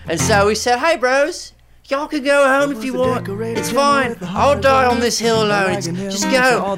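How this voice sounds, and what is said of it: Shifting put-on accents, partly British. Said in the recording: “I'm pretty sure you had like four different accents going on there ... I kind of did go British there ... I think now you're just British.”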